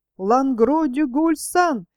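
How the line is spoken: Shouted, small man. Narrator (Russian): три раза прокричал человечек в плаще

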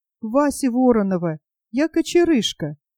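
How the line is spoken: Timid. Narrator (Russian): робко сказал он

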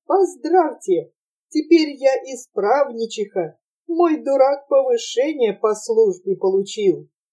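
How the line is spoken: Happy, laughing through nose. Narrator (Russian): Счастливая Наденька, смеясь сквозь носик, говорила

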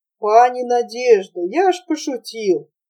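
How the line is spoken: Sighing. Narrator (Russian): Наденька, вздохнув, сказала

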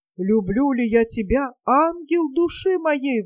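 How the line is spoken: Man's exclamation. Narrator (Russian): воскликнул капитан

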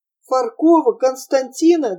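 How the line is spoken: Trembling voice, asking. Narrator (Russian): дрогнувшим голосом спросил Прохор

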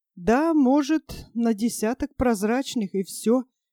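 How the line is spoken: Sad agreement. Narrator (Russian): печально согласился Майкл

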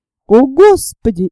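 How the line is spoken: Amazed exclamation. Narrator (Russian): изумленно воскликнул Сниф

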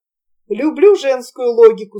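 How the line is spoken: Plain. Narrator (Russian): сказал он

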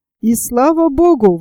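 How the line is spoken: Exclaimed. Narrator (Russian): воскликнул Герберт

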